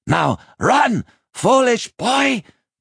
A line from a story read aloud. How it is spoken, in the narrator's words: Binnebik shouted